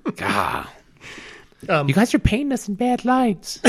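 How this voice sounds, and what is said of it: High-pitched female voice. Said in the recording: “in a female voice ... why did your voice get high?”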